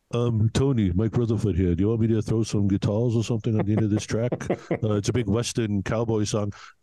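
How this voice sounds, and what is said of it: Mumbly English accent impression. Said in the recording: “this English accent. I got to tell you, it's fantastic ... I thought my Mike Rutherford wasn't bad though, because he's very mumbly.”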